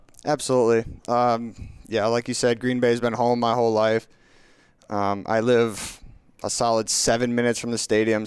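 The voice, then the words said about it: Slight regional accent. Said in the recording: “people hear the accent mm-hmm. a little bit. It's not too crazy”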